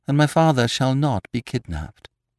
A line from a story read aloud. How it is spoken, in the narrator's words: he added calmly